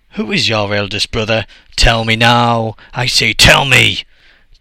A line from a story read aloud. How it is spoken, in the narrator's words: Totofioko shouted loudly with a fearful voice